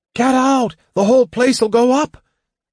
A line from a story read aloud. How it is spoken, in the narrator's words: someone shouted